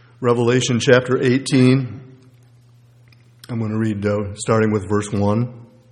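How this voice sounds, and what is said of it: Strained, hoarse voice giving out. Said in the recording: “losing my voice”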